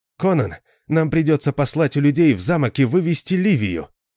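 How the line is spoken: Exclamation. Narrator (Russian): воскликнул Арфас

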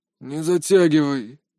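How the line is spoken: Old man, through teeth. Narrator (Russian): бросил сквозь зубы старик

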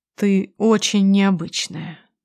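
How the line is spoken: Quiet. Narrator (Russian): тихо произносит он

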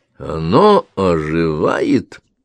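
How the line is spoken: Slow. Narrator (Russian): медленно произнес он

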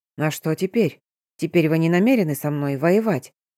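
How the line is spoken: Soft voice. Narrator (Russian): Голос звучал мягко

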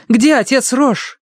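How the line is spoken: Shout. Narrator (Russian): крикнула она

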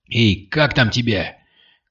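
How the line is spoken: Shouting. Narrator (Russian): крикнул Кирилл

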